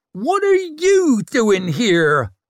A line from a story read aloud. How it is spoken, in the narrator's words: roared Isern, triumphant